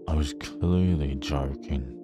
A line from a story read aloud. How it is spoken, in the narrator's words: I growled under my breath